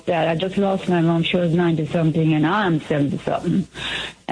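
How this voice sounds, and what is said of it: Mumbling, unclear speech. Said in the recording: “you're mumbling”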